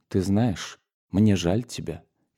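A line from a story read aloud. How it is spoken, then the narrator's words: Quiet, submissive. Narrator (Russian): тихо и покорно сказала она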